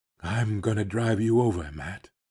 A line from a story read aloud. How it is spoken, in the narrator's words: he whispered